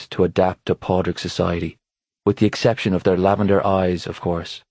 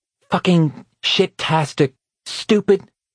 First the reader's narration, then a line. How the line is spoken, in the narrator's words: she cried out in furious exasperation